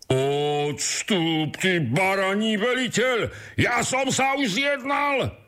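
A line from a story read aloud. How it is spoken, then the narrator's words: Shouted again. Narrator (Slovak): vykríkol znovu ten prvý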